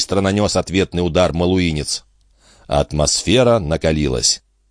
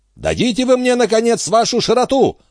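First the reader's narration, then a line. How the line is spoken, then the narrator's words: Indignant shout. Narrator (Russian): закричал дядюшка Антифер в порыве негодования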